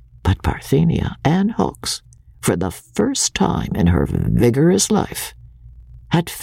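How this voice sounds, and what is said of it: Usual voice. Nothing is said of it.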